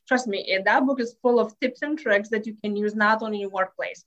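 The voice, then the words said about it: Lithuanian accent. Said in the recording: “as you can tell from my accent, I'm originally from Lithuania”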